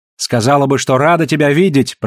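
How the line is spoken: Shouting back. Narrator (Russian): прокричала в ответ Наоми

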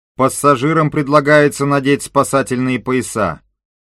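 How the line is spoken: Booming announcement. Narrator (Russian): прогремела команда

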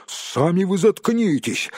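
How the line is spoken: Snapping back. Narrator (Russian): огрызнулся Том

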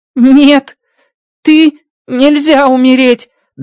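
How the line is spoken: Trembling voice. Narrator (Russian): дрожащим голосом говорит Рокки

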